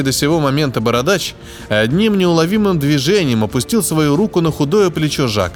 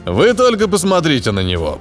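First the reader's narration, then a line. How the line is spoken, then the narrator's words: Deep bass voice. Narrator (Russian): пробасил здоровяк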